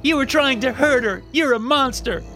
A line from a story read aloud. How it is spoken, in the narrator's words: she screamed